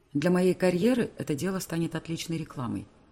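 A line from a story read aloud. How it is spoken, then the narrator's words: Calm reply, lawyer. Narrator (Russian): спокойно отвечает адвокат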